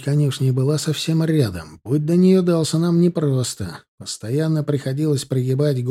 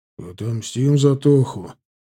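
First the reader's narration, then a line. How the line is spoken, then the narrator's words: Unexpectedly cold agreement. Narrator (Russian): неожиданно холодным тоном поддакнул Гена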